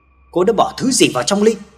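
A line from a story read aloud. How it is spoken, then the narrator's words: Sudden sharp shout. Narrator (Vietnamese): Hà bỗng nhận ra điều gì đó và quát cô gái kia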